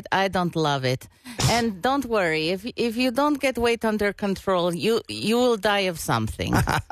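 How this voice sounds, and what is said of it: Put-on Russian accent. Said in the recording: “I love the Russian. That was very good. ... my Russian accent didn't sound so much like Borat”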